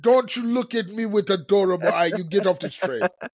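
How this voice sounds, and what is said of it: Put-on Russian accent sounding Caribbean. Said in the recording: “That's my Russian accent. ... Like it was a good Caribbean accent. ... I'm just saying that's not Russian to me.”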